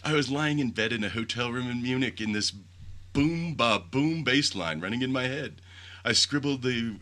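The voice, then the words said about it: Imitated accent that fades. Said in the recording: “Wow, I lost that accent quick.”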